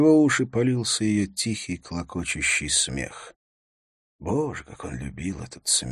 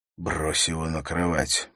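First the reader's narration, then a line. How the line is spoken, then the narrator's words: Whisper. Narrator (Russian): прошептал он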